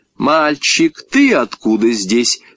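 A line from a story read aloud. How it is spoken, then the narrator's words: Woman's stern question. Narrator (Russian): строго спросила женщина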